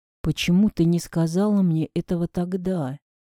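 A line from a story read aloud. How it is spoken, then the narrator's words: Dejected low voice. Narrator (Russian): упавшим голосом проговорил Леня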